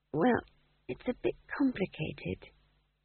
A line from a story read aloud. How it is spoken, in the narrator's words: said McGrath weakly